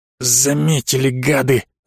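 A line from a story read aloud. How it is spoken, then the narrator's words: Angry hiss. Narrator (Russian): зло прошипел Остап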